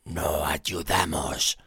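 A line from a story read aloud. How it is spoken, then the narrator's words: Hoarse declaration. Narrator (Spanish): declaró con una voz ronca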